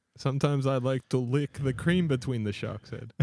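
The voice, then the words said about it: Botched, vaguely Russian put-on accent. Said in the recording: “I don't know what accent that was. I balled that up. ... Yeah, it's kind of Russian-ish.”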